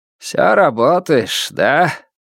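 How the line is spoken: Mocking question. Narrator (Russian): насмешливо спросил тот

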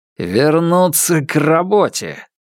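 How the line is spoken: Through gritted teeth. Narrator (Russian): Ян Сюэу сквозь зубы произнес

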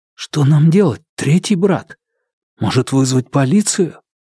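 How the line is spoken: Whisper. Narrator (Russian): Ухань, подумав, прошептал

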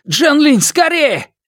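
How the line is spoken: Shouted downward. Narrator (Russian): крикнул он вниз

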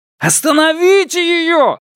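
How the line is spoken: Yelled. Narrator (Russian): заорал Сяо Вон

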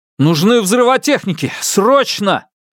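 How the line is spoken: Shouting into radio. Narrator (Russian): Фан Му крикнул в рацию

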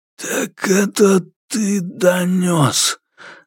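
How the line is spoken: Hoarse voice. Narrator (Russian): раздался в углу хриплый голос

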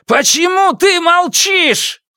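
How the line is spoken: Sudden shout. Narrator (Russian): Внезапно Фанму закричал

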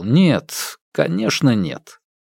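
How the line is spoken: Answered calmly. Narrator (Russian): Цзян Я спокойно ответил

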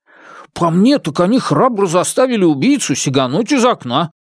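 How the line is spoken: Exclaimed. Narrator (Russian): воскликнул четвертый брат

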